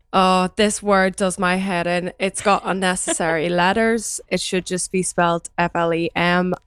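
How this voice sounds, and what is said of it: Northern Irish accent. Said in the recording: “my Northern Irish accent”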